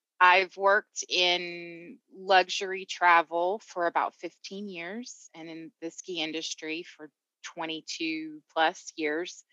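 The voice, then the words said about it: Southern US Georgia accent. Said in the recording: “I am originally from Georgia, Atlanta, hence the accent.”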